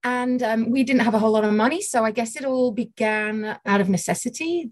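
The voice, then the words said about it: Northern English accent. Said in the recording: “As you can tell by my accent, I'm English. I grew up in a city called Sheffield in the north of England”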